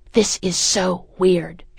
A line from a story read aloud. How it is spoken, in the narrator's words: hisses